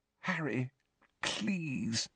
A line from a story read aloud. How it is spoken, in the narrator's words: Hermione pleaded weakly